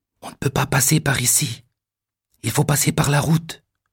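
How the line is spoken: Whisper. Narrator (French): chuchote Sébastien

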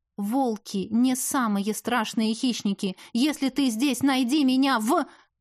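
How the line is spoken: Loud repetition. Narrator (Russian): секретарша громко повторила

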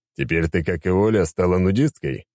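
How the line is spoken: Chuckling. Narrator (Russian): хохотнул

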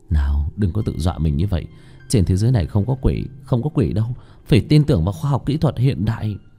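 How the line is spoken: Nervous self-soothing mutter. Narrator (Vietnamese): nhẹ nhàng cấu cấu bàn tay của mình lẩm bẩm

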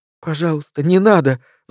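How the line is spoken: Pleading. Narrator (Russian): взмолилась она

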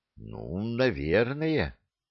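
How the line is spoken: Uncertain drawl. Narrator (Russian): неуверенно протянул Скоморох

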